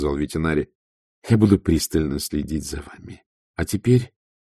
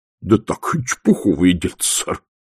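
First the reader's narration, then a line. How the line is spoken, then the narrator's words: Forced out, strained. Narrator (Russian): выдавил он из себя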